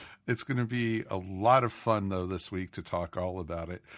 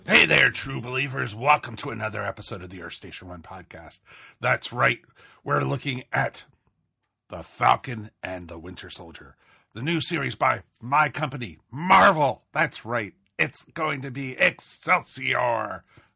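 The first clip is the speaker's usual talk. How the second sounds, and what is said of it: Imitates another person's voice. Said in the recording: “that's as long as I could do my Stan Lee imitation”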